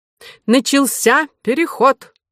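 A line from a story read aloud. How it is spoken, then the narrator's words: Loud. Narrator (Russian): сказал Горбуз громко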